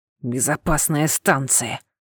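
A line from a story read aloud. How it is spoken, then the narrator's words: Quiet grumbling. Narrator (Russian): тихо ворчал капитан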